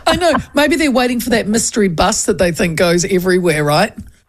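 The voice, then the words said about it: Slightly hoarse voice. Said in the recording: “You're a little bit hoarse... The laughing last night and the whooping”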